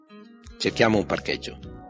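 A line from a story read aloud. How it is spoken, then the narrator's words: Plain. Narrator (Italian): disse a Miles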